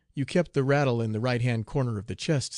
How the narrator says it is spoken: said Tom

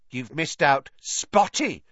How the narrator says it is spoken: Peeves hissed in her ear

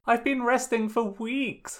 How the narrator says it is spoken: Sokka whined

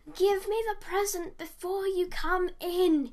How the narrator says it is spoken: yelled

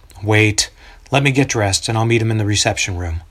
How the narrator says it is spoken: Sighing, David says

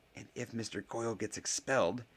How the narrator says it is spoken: hissed Harry

